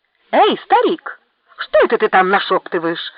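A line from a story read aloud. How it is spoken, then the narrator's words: Angry shout. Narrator (Russian): злобно закричал Мунданг Ванги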